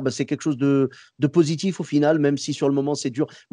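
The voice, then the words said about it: Moroccan-American accent in French. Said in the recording (French): “J'adore ton accent ... c'est l'accent marocain, marocain-américain ... l'accent amarocain”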